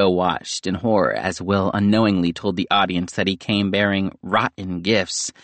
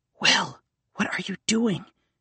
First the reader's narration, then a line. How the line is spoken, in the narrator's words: Nico whispered